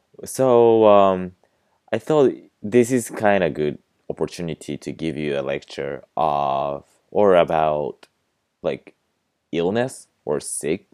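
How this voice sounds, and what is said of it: Slightly husky voice. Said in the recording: “I'm sorry if my voice sounds a little bit husky”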